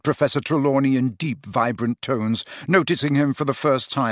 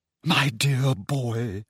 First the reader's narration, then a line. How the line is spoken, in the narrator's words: she said in a very carrying whisper